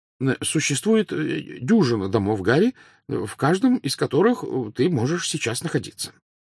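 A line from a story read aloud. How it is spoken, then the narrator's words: Plain. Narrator (Russian): сказал мистер Уизли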